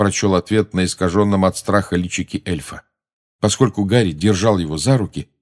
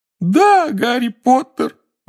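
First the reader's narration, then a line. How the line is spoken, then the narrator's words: Howl. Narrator (Russian): взвыл Добби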